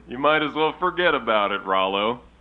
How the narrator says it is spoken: Jimbo laughed

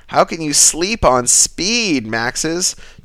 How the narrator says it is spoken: Daisy shrieks into my ear

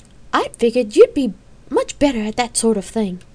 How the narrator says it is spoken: Kate replied calmly

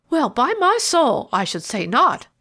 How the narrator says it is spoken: laughed Mr

